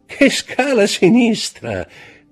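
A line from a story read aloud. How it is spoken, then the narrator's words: Said laughing. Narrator (Italian): disse Château Renaud ridendo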